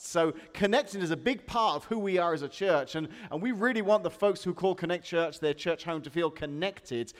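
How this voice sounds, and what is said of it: English accent. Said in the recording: “where I come from ... go to England ... my accent”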